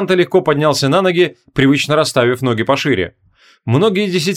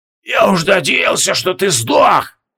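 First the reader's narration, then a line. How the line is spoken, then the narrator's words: Hoarse, disappointed rasp. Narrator (Russian): с явным разочарованием прохрипел колдун-полуавтомат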